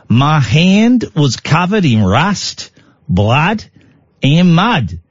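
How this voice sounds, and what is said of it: Attempted Australian accent. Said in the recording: “why can't I do an Australian accent?”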